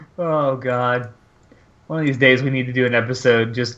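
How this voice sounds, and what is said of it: Usual voice. Nothing is said of it.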